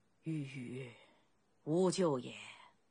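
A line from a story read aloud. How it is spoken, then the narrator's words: Heavy long sigh. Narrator (Chinese): 惠文王…粗重地长长叹息了一声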